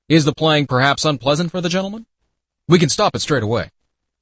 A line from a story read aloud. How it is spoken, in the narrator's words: Gregor's father called out